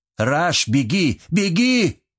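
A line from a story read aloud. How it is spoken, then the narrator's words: Shout. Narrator (Russian): крикнул он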